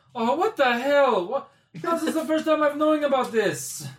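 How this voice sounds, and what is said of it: Character voice with inconsistent accent. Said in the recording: “your accent's changing a little bit”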